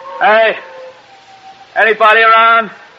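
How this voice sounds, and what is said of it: Yelling. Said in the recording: “You're yelling right into the wind.”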